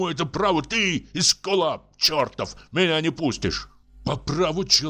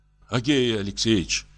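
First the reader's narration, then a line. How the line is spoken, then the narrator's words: Trembling voice. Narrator (Russian): сказал дрожащим голосом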